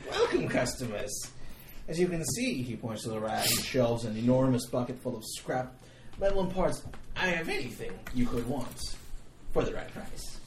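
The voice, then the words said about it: Put-on accent, partly Boston-sounding. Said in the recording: “I can't tell what that accent is. There was a little bit of Boston at one point.”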